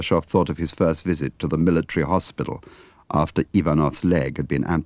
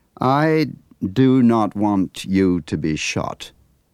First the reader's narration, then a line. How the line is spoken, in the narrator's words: Ivanov said slowly